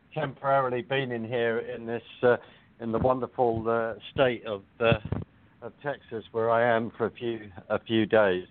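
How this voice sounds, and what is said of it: London accent. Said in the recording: “I don't have my Texas drawl. I have my London accent,”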